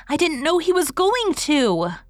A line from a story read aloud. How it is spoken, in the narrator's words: cried Dora